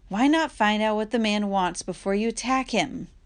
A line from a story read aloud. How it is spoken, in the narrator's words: she said